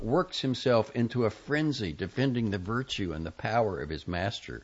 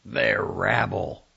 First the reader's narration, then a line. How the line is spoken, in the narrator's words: snarled the fox, full of boundless contempt